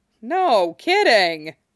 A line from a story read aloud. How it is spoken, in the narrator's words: Lance laughed